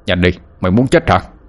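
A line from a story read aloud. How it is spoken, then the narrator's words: Angry shout. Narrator (Vietnamese): Ông tức mình mà quát lên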